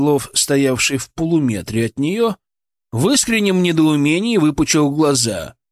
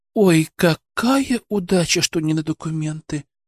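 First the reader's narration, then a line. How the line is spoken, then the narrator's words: Disappointed sigh feigning relief. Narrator (Russian): Разочарованно, но тут же маскируя это под облегчение, выдохнула Борисова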